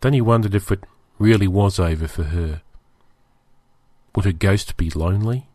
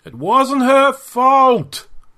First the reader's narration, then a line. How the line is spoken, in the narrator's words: he cried out to the Xenok ghosts